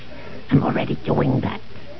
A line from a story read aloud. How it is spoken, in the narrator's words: snarled Bosk